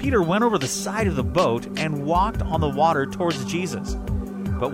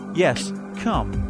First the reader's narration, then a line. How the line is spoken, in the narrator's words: Jesus said